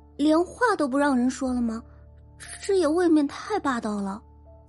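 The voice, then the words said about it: Quiet muttering young woman's voice. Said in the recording (Chinese): “一名女生小声嘟囔着”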